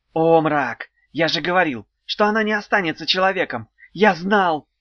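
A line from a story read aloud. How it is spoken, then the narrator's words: Shout. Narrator (Russian): крикнул кто-то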